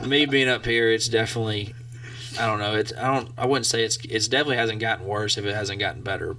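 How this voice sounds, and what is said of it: Southern American accent. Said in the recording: “he lives down south ... It hasn't worn off at all ... I get made fun of for it a lot ... my accent”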